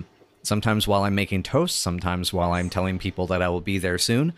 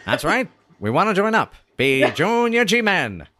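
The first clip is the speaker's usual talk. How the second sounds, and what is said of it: Vaudeville G-Man silly voice. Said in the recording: “G-Men vaudeville dialogue humor voice ... silly voice”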